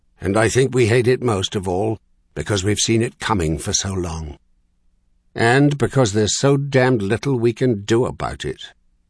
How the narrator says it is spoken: Caleb agreed harshly from far distant Tellersberg

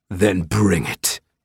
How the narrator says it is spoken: snarled

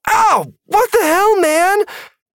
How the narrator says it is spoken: Maddie cried out

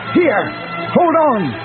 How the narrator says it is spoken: Luke shouted in her ear

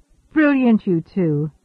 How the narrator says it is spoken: Svoboda said happily

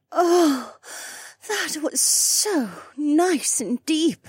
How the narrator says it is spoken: Becca moaned

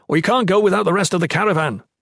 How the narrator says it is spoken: Jen shouted back

